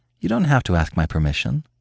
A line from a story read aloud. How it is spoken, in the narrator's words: she said, her voice gentle